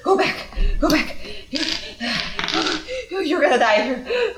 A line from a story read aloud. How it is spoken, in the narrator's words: he's panting and he says